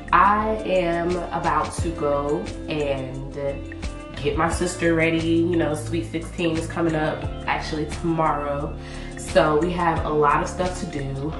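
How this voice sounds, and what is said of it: Off, sore-throated voice. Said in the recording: “My voice is just doing its own thing. My throat hurts. I'm not feeling well.”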